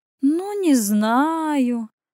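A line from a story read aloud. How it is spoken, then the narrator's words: Feigned uncertain drawl. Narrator (Russian): притворно неуверенно протянула моя малышка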